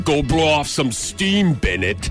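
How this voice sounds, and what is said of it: Bad Arnold Schwarzenegger impression. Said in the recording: “Arnold quotes ... Do you think he enunciated that much? Bennett. ... I'm terrible at this impression.”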